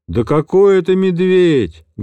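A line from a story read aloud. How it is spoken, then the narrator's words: Loud call from behind. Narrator (Russian): громко отозвался сзади математик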